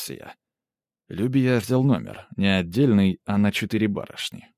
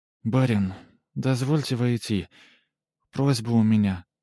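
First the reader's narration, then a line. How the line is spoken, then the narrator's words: Quiet female visitor. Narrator (Russian): тихо сказала гостья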